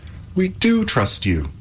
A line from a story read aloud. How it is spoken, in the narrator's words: cried Epimetheus and Pandora, both in one breath